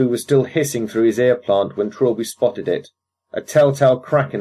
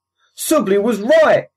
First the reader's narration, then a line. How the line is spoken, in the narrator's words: he hollered over the comm